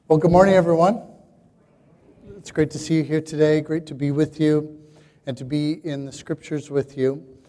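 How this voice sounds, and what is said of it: Hoarse, strained voice. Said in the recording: “I'm kind of losing my voice ... I lose my voice this weekend”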